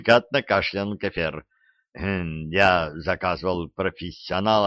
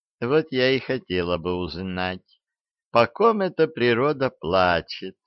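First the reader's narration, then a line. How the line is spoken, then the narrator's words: Cooing. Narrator (Russian): Проворковала Банша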